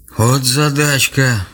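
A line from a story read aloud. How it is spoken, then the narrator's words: Playful sigh, old man. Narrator (Russian): шутливо вздохнул дед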